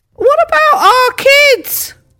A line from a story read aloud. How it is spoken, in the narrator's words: called out a creaky-voiced bystander from the back of the room